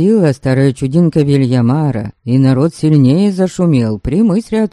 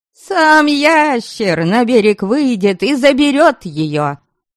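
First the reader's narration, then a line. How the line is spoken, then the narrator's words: Louder frightened crowd shouting. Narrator (Russian): Ладожане закричали еще громче, устрашенные этим жутким пророчеством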